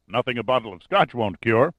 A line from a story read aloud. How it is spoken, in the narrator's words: Larimer replied with a booming laugh